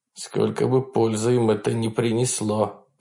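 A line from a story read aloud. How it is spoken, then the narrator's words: Grumbling. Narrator (Russian): проворчал Александр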